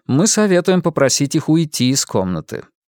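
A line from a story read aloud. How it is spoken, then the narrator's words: Even male voice. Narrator (Russian): заговорил он ровным голосом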